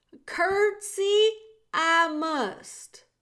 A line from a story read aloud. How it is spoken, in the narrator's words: shouted Meg